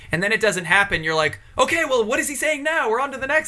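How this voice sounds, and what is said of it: Usual voice. Nothing is said of it.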